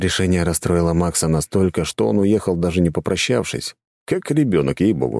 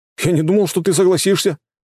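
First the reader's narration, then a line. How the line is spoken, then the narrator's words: Disappointed boy's shout. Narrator (Russian): разочарованно выкрикнул парнишка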